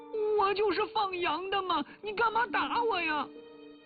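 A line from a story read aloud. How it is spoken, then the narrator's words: Loudly crying. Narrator (Chinese): 说着说着就大声地哭了起来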